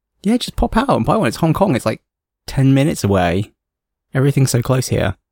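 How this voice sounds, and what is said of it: Plummy English accent. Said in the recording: “my plummy English accent”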